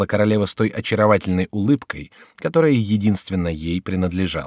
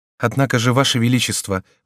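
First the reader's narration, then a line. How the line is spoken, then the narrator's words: Timid objection, queen. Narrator (Russian): возразила робко королева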